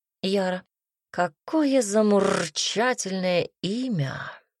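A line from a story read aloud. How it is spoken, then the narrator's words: Drawling ladies' man. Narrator (Russian): протянул дамский угодник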